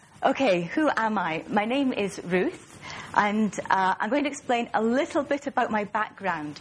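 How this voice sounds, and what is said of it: Mild Scottish accent. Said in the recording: “my strange accent ... I'm from Aberdeen in northeast Scotland, and that accounts for the Scottish accent, which isn't too pronounced because I've been away from Scotland for some time ... you might hear a few words pronounced in a slightly odd way”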